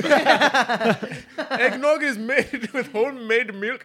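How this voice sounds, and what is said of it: Put-on exaggerated accent. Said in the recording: “Do the accent again ... I'm not even going to ask what accent that is ... It's a racist accent.”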